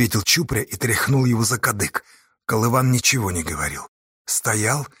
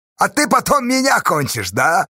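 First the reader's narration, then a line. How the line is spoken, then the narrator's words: Mocking question. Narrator (Russian): насмешливо спросил Чупря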